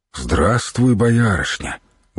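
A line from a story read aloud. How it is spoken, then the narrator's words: Gentle. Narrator (Russian): ласково произнес воевода киевский Серегей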